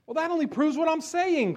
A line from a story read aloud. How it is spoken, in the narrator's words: cried Yellow